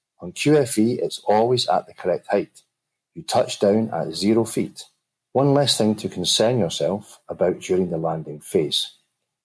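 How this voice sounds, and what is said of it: Glaswegian Scottish accent. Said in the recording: “my Glaswegian Scottish accent wasn't too thick”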